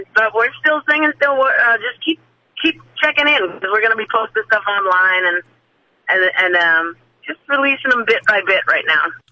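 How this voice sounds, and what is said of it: Slightly hoarse voice. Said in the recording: “why my voice is a little hoarse because, man, we sang a dog out of some stuff last week”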